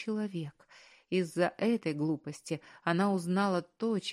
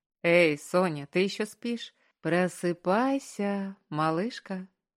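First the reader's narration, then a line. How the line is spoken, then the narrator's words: Sing-song drawl. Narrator (Russian): Нараспев протянул Маркус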